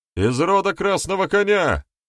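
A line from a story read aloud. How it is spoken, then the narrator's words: Shouted out. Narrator (Russian): выкрикнул один из гостей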